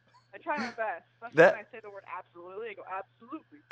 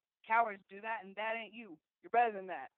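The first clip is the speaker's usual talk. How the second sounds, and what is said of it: Imitates another person's voice, accent. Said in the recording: “You even kind of sound... You even kind of sounded, you had like that accent too.”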